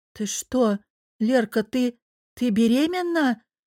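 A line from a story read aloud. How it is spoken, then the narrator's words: Halting forced out. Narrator (Russian): Кое-как, сложив мысли в слова, выдавила она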